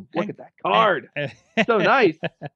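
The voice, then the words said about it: Imitates another person's voice. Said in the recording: “need my Don West impersonation,... to kind of hype up the quality of the cards... I can't do a Don West to save my life.”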